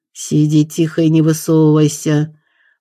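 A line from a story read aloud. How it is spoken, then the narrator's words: Vicious growl. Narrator (Russian): злобно рыкнул на нее один из охотников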